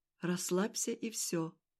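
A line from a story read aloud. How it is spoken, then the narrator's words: Said very quietly. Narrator (Russian): проговорил он очень тихо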